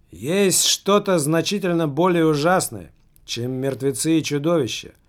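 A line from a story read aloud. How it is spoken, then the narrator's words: Loud. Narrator (Russian): громко проговорил он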